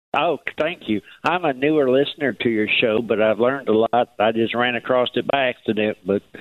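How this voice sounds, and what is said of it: Noticeable regional accent. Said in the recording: “I'd love your accent.”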